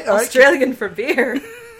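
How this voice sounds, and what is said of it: Put-on Irish accent. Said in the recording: “That was a really good Irish accent”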